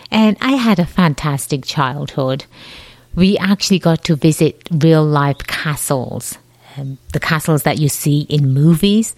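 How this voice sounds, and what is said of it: Slight English accent. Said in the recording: “my voice is that I have a slight accent. ... I was born and raised in England”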